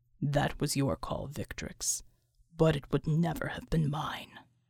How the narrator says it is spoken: he muttered

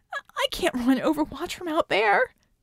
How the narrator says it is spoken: she yelped

